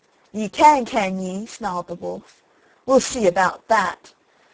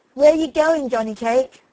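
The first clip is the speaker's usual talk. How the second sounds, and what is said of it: Sharp fox character voice. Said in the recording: “in a sharp voice”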